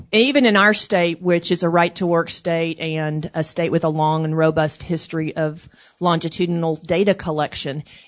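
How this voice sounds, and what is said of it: Texas accent. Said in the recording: “I'm from Texas, if you didn't guess by the accent.”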